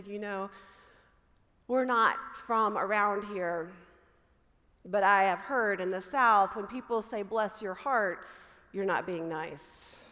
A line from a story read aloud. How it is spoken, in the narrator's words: the deep sigh of the mother on the other end of the phone, and she said